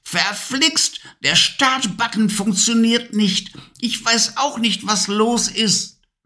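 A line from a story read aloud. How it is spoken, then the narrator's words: Frantic angry shout, witch. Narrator (German): Hektisch … die Hexe … schrie wütend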